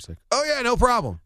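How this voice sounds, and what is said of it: Imitates another person's voice. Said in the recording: “You're actually doing a pretty good impersonation of”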